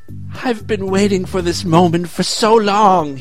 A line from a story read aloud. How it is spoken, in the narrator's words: he moaned